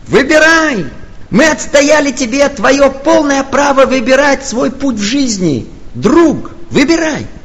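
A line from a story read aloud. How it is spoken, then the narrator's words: Joyful chorus shouting. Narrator (Russian): все хорами радостно кричат ему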